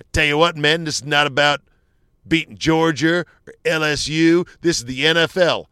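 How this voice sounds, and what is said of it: Imitates another person's voice. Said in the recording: “I do a terrible impression.”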